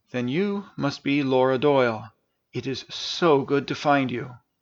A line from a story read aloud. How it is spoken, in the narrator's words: quietly said